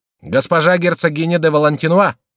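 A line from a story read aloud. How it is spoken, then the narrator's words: Loud formal announcement. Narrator (Russian): докладчик громким голосом провозгласил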